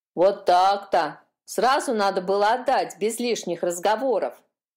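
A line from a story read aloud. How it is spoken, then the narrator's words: Grumbling. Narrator (Russian): проворчала та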